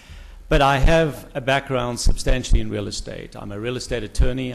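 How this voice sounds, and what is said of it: South African accent. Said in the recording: “originally from South Africa ... an American with a funny accent”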